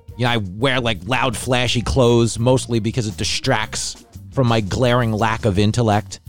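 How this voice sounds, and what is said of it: Thick New York Bronx accent. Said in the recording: “my mook accent. I sound like I'm in Fox News selling TVs that fell off the back of a truck on the Cross Bronx Expressway”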